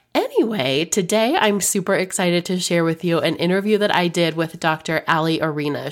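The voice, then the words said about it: Sick, husky voice. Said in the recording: “Please forgive my incredibly sexy voice. I have been sick for what feels like forever.”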